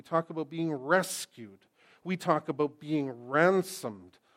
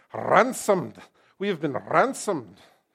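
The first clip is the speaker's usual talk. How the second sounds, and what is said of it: Scottish accent, Alistair Begg impression. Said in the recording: “I wish I could say that with a Scottish accent. ... Hey, Alistair Begg.”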